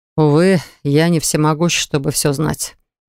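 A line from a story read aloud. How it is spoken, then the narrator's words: Answer with sigh. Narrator (Russian): ответил Даррен и вздохнул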